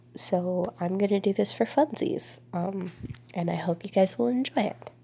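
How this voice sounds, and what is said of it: Congested, stuffy-nosed voice. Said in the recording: “super congested and probably don't sound like myself ... super congested”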